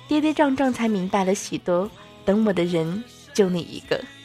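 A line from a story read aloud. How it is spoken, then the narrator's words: Singing, choked up. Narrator (Chinese): 阿妹哽咽着，歌词里说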